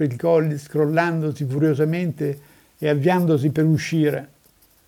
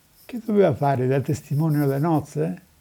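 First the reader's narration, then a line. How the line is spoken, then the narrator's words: Mother adding with a sigh. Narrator (Italian): aggiunse la madre sospirando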